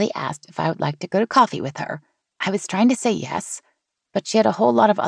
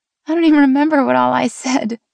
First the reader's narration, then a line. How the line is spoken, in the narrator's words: Haley laughed